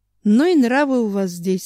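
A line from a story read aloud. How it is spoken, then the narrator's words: Sorrowful sigh. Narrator (Russian): сокрушенно вздохнул Семен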